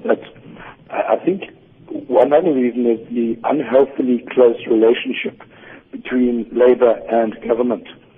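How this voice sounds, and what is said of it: Hoarse voice. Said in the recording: “please excuse my hoarse voice”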